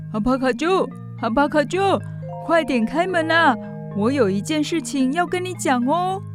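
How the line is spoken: Calling out. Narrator (Chinese): 乔凡尼喊着

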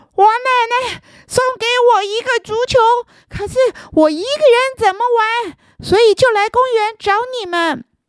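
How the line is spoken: Breathless. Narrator (Chinese): 然后气喘吁吁的说

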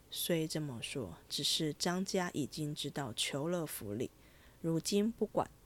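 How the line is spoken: Sighing after a pause. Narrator (Chinese): 静虚半晌叹道

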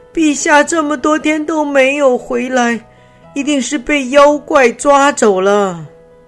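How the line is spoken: Loud shout amid crying. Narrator (Chinese): 他们听到宫里一片哭声，有的人大声喊道

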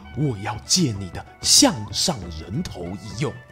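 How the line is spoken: Low voice close to ear. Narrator (Chinese): 曹操压低声音，靠近他的耳边说

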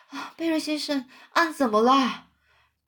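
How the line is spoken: Nervous, panting speech. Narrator (Chinese): 非常紧张的喘着气说

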